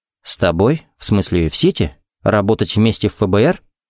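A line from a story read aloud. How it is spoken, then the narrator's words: Calm, level voice. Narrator (Russian): Уточнил он своим чертовым спокойным голосом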